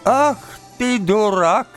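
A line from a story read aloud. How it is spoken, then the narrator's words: Old woman shouting. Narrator (Russian): этакой закричала на него старуха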